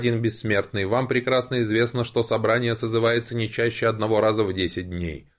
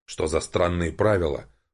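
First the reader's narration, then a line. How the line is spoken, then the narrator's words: Man muttering under breath. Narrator (Russian): пробормотал мужчина себе под нос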